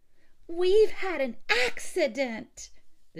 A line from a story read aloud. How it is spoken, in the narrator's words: the children screamed in a frenzy of delight